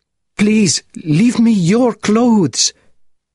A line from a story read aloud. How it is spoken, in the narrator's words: the Marquis cried